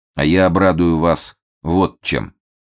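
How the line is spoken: Steady even voice. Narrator (Russian): все тем же ровным голосом продолжает Фондорин

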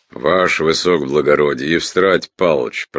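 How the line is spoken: Deep bass voice. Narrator (Russian): пробасил Гуськов

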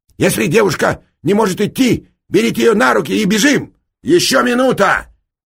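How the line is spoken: Loud reply. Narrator (Russian): громко ответил ему Эраст Петрович

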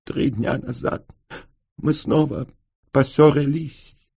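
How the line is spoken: Muffled voice broken by sobs. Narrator (Russian): донесся из-под платка глухой голос, прерываемый рыданиями

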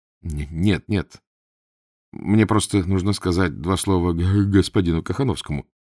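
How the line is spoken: Muttering. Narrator (Russian): пробормотал Эраст Петрович

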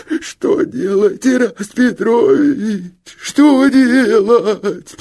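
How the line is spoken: Sobbing. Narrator (Russian): Всхлипывал Луков

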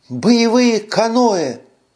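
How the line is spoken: Exclaiming. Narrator (Russian): воскликнула Карара

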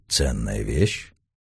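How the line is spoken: Low-voiced question. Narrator (Russian): околоточный вполголоса спросил

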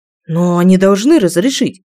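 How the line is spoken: Exclaimed. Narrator (Russian): воскликнул Викс

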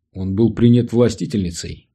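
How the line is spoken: Calm. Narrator (Russian): сказал он спокойно

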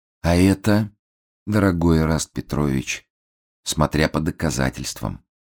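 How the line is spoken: Gentle, pleased. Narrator (Russian): ласково ответил обвиняемый, кажется, очень довольный предложенной игрой

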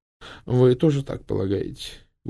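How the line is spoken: Dejected question. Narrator (Russian): упавшим голосом спросила мисс Палмер

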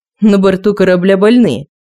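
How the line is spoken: Booming voice. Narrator (Russian): прогремел голос Хована

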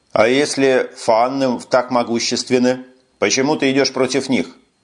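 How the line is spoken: Plain. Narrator (Russian): спросил Росс Локета

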